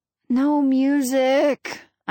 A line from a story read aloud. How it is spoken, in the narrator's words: groan